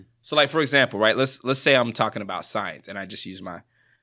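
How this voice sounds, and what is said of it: Usual voice. Nothing is said of it.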